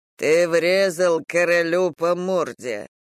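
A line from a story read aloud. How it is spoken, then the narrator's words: Hoarse deep amused voice. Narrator (Russian): хрипло пробасил он, даже не пытаясь скрыть своего веселья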